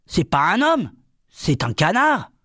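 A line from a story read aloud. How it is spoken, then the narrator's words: Shouted. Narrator (French): Gédéon cria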